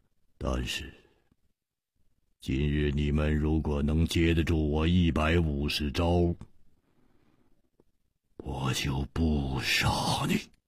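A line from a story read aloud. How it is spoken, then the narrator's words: Cold, menacing. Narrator (Chinese): 目中忽然射出了一股杀机，冷冷地说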